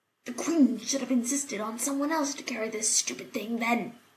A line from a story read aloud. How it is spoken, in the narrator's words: the other one hissed